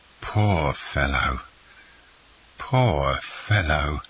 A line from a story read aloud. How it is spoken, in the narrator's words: murmured Caderousse